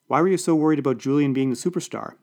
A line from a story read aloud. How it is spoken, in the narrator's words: asked